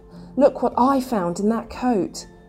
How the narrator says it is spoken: she exclaimed

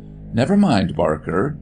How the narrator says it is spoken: the doctor said kindly

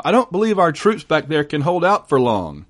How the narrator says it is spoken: he shouted, very concerned now

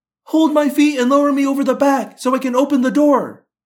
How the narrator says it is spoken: Cassie yelled

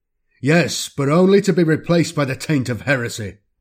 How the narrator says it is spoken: Constantius roars

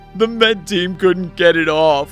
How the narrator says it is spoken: wailed Draven

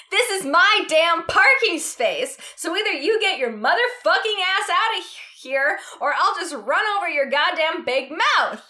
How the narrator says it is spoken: she yelled, getting even angrier and impatient

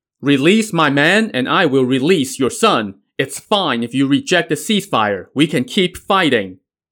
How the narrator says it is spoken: He shouted

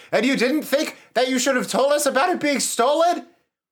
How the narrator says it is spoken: shouts like

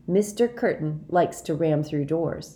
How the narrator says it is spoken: he said

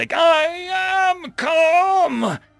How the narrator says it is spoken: she shrieked

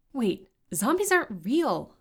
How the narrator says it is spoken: exclaimed Serena

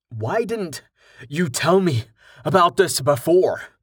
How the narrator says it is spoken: Rain gasped

